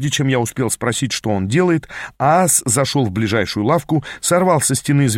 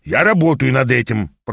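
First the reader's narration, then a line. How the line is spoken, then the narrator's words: Grumbled. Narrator (Russian): проворчал Аас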